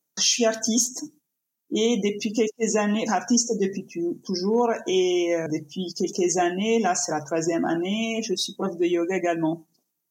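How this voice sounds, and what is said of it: Italian accent speaking French. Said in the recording (French): “je suis italienne, ça s'entend de mon accent”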